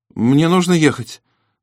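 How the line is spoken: High, frightened voice. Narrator (Russian): сказал Терри высоким испуганным голосом

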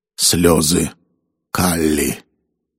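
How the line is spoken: Muttering man. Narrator (Russian): пробормотал индус

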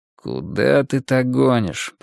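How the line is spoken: Grumbling. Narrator (Russian): проворчал Переверзев

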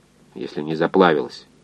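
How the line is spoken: Grumbled. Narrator (Russian): буркнул инженер

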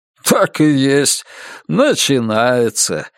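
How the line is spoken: Laughing. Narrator (Russian): засмеялся хозяин

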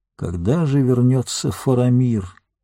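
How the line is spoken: Sad sighing speech. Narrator (Russian): Гэндальф, тоскливо вздохнув, сказал

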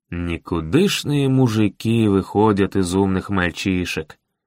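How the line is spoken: Through gritted teeth. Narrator (Russian): Процедил Аарон

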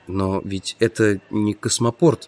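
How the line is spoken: Muttering. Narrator (Russian): пробормотал я

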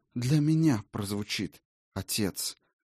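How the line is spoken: Quiet. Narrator (Russian): тихонько сказала Райна

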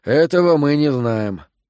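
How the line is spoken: Sighed. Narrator (Russian): вздохнул Коэн

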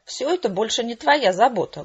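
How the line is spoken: Mocking singsong. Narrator (Russian): глумливо пропел прихвостень честнее

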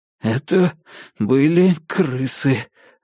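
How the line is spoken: Strained forced words. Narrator (Russian): выдавил я

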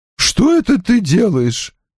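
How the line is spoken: Hoarse. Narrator (Russian): хрипло сказала Иден

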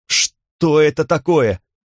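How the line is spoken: Shouting. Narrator (Russian): крикнул Ассад

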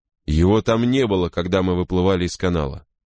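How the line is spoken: Plain. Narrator (Russian): сказал Пеглер

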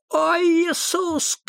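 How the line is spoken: Shouting. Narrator (Russian): крикнул Томми

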